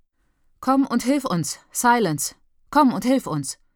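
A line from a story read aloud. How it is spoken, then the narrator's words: Calling out. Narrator (German): ruft Leon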